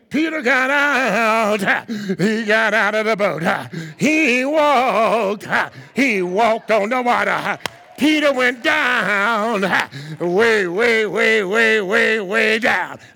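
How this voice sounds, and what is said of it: Sing-song preaching, chanted delivery. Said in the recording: “Hooping is like singing the message ... the preacher starts out slow”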